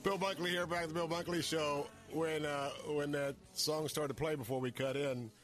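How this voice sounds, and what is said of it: Raspy voice. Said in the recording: “especially with my raspy voice today”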